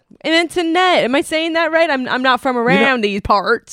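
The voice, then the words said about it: Put-on Kentucky accent. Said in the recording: “I'm from Kentucky ... very accurate accent ... This is a perfect dialect of how we all talk in Kentucky”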